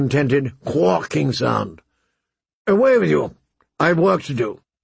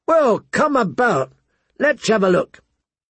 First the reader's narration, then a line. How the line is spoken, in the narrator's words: Pip called out